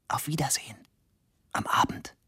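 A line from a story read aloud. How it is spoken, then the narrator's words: Whisper. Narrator (German): flüsterte sie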